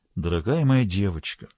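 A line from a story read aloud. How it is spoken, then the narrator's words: Low undertone. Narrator (Russian): вполголоса сказал он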